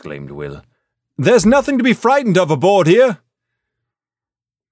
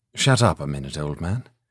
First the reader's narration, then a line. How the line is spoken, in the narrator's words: he said in a low voice